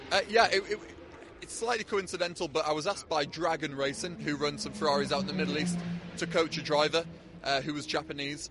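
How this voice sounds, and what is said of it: Northeast English accent. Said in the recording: “your northeast accent”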